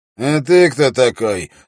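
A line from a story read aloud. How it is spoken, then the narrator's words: Rude question. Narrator (Russian): спросил пленник грубо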